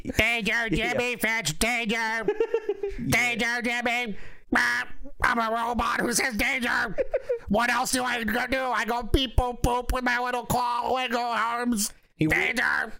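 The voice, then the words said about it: Robot character voice. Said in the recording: “That's my impression of Beano ... B9 ... Beano the Robo”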